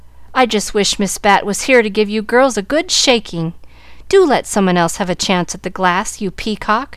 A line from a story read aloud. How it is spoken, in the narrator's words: exclaimed Molly Loo